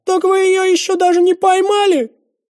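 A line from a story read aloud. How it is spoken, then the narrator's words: Howling wail. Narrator (Russian): взвыл тезка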